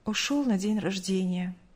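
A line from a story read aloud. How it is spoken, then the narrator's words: Curt, sighing. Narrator (Russian): коротко ответила мать, вздохнув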